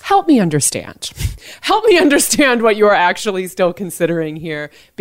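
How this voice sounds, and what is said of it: Condescending, patronizing tone. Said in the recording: “put on my condescending voice”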